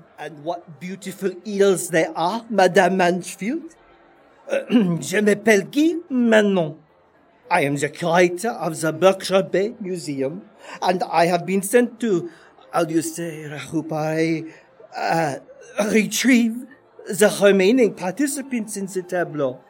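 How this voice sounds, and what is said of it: Put-on French accent. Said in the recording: “J'adore ton accent.”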